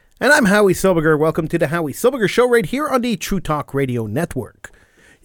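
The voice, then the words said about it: Slightly congested, sick-sounding voice. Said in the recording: “I got this nasty cold. You can probably still hear it in my voice a little bit.”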